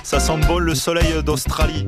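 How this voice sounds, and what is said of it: Put-on southern French accent. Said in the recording (French): “Je sais pas pourquoi je prends l'accent du sud quand je dis ça”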